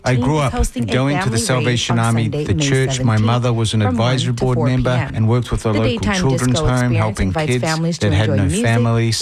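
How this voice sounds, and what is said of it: New Zealand accent. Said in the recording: “I'm originally from New Zealand, if you're wondering where my accent is from”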